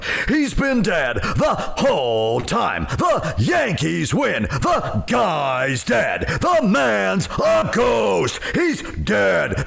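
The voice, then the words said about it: Impression of announcer John Sterling. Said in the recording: “pretty good impression”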